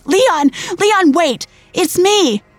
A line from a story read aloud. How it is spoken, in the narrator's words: I screamed